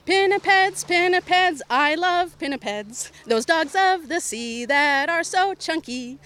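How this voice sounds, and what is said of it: Slightly hoarse singing voice. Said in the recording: “My throat's a little hoarse”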